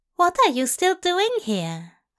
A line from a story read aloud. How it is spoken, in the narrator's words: Aziraphale asked warmly